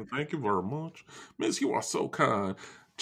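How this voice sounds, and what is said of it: Put-on hillbilly accent. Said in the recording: “accent. ... Oh, hillbilly.”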